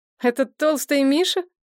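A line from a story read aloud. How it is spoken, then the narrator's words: Scornful snort. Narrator (Russian): фыркнула Надежда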